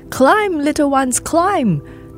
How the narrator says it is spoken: the adults would shout

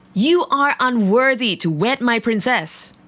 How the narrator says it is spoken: the king roared

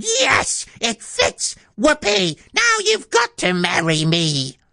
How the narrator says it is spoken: But she screamed

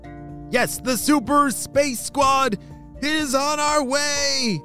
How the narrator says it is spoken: shouted in unison

